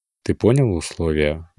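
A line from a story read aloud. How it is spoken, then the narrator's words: Soft question. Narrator (Russian): мягко спросил Раэль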